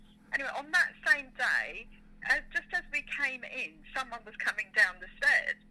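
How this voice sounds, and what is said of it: Usual voice. Nothing is said of it.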